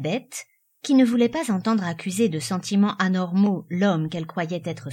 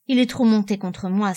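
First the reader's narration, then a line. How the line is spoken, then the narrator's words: Muffled sigh, young woman. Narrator (French): soupira la jeune fille d'une voix sourde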